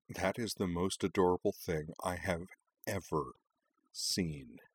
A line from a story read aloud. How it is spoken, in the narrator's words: Karana mused quietly